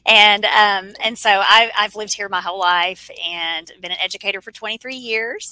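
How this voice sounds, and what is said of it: Southern American accent. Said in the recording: “I am located in Central Arkansas, thus the Southern accent.”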